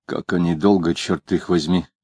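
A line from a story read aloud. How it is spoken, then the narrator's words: Mutter. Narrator (Russian): пробормотал он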